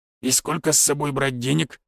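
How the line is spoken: Displeased mutter. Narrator (Russian): недовольно буркнул

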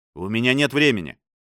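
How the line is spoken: Sharp, pushy modern accent. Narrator (Russian): резко заявил Пэлли с настырным произношением 21 века, не тратя времени на жеманные елизаветинские звуки

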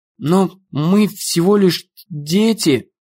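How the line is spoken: Stammering. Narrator (Russian): заикаясь, произнесла Эмми

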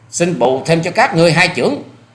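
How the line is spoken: Loud forceful shout. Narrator (Vietnamese): Hoa Sĩ Kiệt thừa thế trầm khí quát to

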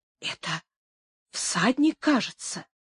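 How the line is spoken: Quiet. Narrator (Russian): тихо отвечал патер

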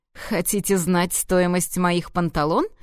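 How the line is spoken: Snorting. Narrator (Russian): фыркнул дракон

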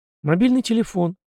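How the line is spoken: Calm reply. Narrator (Russian): спокойно ответил майор

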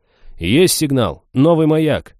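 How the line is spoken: Several voices shouting together. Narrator (Russian): закричали одновременно сразу 3 или 4 офицеров, сканирующих космос

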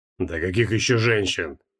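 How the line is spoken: Scornful snort. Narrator (Russian): фыркнул Сакак

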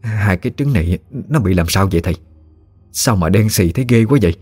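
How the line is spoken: Trembling, broken speech. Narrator (Vietnamese): bà run rẩy nói không tròn câu

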